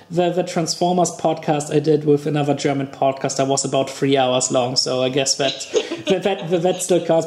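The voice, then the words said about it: Foreign accent with British undertone. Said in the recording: “my weird voice. I'm not quite sure how strong my accent is ... Sometimes I actually drive into kind of British ... There is a little bit of a British undertone there”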